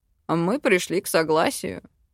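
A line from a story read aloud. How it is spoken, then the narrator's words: Man's amused snort. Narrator (Russian): хмыкнул мужчина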